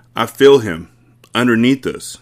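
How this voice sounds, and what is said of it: Trembling voice. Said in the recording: “said in a trembling voice.”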